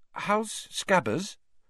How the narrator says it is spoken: Hermione asked timidly

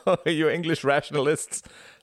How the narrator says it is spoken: laughed Klaus

